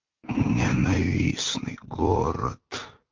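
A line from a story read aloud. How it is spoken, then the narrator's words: Sudden mutter. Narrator (Russian): вдруг почему-то пробормотал прокуратор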